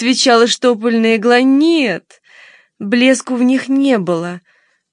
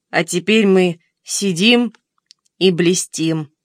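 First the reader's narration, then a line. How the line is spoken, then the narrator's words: Plain. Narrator (Russian): сказал бутылочный осколок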